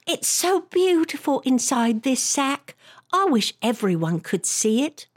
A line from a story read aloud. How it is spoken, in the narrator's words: Molly Whoopi said as loudly as she could